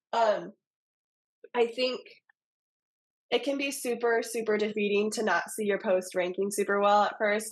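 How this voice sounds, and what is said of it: Voice with a slight cold. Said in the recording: “I have a little bit of a cold.”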